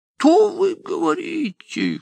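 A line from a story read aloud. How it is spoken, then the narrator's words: Startled cry. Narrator (Russian): вскрикнул Чичиков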